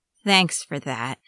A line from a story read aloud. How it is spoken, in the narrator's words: Yaskia muttered, with a sigh